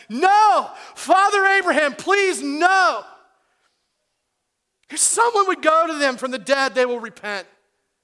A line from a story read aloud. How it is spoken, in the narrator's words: the rich man is still pleading with Abraham when he says